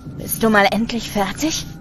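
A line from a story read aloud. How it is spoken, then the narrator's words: Impatient growl. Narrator (German): knurrt Something Worse ungeduldig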